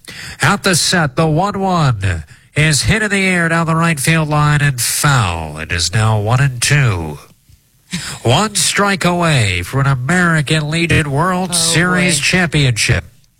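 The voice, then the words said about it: Old-timey radio announcer voice. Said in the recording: “I'm going to do an old-timey radio voice.”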